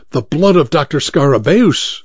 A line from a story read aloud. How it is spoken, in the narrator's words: exclaimed Dr